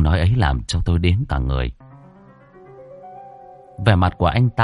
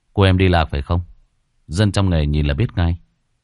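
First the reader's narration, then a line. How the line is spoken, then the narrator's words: With a dry laugh. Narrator (Vietnamese): giọng anh ta lẫn trong tiếng cười nhạt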